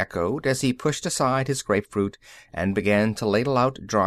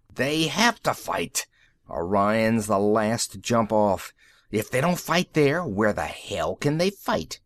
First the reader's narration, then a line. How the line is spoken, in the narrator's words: Rossi swore savagely